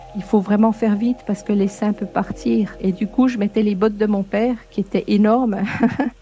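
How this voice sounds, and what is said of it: Slight Québécois-tinged French accent. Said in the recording (French): “son petit accent trop charmant ... C'est un mélange foisonnant de l'influence de son mari québécois et de l'endroit où elle est née. Précisément Vesoul”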